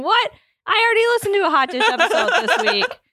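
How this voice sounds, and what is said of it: Imitates another person's voice. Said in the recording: “That is a good impression.”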